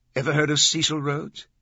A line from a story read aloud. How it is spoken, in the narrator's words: Glick asked